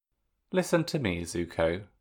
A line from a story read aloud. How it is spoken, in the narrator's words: Sokka murmured, the firmness of Sokka's voice